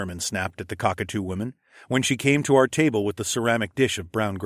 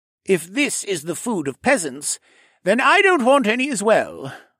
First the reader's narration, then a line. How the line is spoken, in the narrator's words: the rogue said in a snooty voice